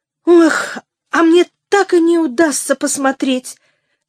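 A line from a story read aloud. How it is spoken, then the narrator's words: Vexed exclamation. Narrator (Russian): с досадой воскликнула первая служанка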